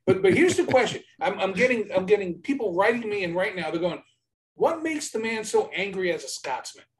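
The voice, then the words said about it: Brooklyn accent. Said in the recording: “I have the Brooklyn accent, so I just butcher every word known to man”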